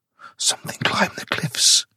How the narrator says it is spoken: she whispered

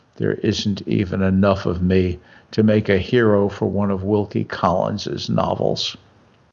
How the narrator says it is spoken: added gloomily

